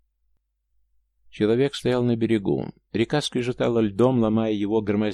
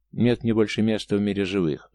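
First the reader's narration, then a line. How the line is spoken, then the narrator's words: Angry reply. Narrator (Russian): зло ответили карие глаза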